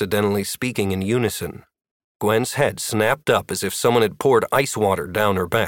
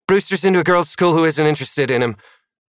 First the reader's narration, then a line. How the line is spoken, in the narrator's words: Maddie blurted